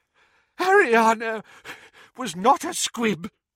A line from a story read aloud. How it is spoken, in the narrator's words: wheezed Doge